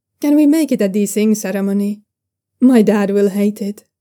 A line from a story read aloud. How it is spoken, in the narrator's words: Zhao Yunlan says